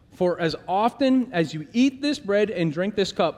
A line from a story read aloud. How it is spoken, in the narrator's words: Paul says